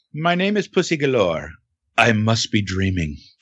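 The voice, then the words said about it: Imitates a film character's voice. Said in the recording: “here's my quick impression.”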